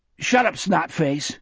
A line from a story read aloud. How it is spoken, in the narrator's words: Sonny snapped